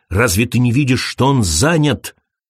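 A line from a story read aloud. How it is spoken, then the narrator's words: Snapped. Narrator (Russian): огрызнулся он на Крейга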